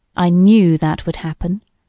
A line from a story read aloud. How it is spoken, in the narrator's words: observed Pepper Sneed, gloomily